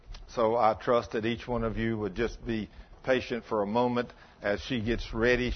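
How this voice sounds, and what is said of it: Texas accent. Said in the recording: “for a Texas accent, that's a little difficult”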